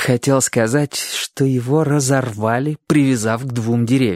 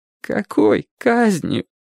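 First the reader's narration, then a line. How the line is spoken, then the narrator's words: Boy's near-sobbing question. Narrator (Russian): почти рыдающим голосом спросил мальчик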